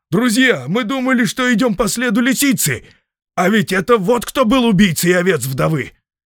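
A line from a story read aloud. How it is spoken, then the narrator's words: Shouted. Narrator (Russian): крикнул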